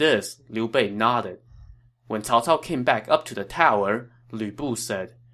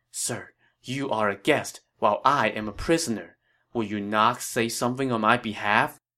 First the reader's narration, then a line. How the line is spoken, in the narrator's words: Lü Bu whispered to Liu Bei